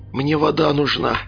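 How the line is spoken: Hoarse rasp. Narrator (Russian): прохрипел я

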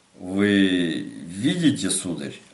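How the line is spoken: Stammering. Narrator (Russian): обратился к нему маркиз, вновь начиная заикаться

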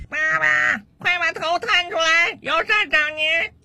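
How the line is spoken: Son shouting from downstairs. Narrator (Chinese): 楼下 传来 儿子的大声喊叫声

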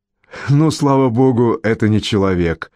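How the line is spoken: Relieved laughing. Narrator (Russian): сказал отец Бернард, облегченно рассмеявшись

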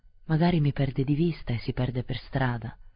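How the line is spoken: Plain. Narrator (Italian): disse

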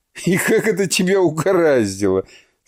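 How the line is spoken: Officials laughing. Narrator (Russian): смеялись чиновники

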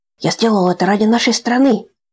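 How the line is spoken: Pompous squeak. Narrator (Russian): пафосно пискнул Алим-аналитик

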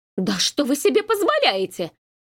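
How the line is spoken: Indignant shriek. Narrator (Russian): Взвизгнула она, не желая быть жертвой злословия

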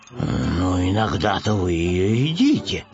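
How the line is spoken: Mumbled. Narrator (Russian): пробормотал Пэтсон

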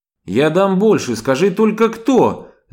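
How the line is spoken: Desperate shout. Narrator (Russian): закричал он, сыграв ва-банк

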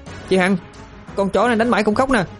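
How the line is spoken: Frightened loud shout. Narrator (Vietnamese): mắt khiếp hét lớn

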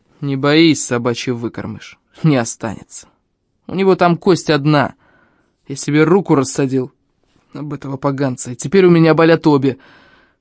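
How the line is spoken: Big man grumbling. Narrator (Russian): ворчал здоровяк

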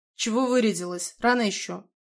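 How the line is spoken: Grumbled. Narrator (Russian): буркнула Рита

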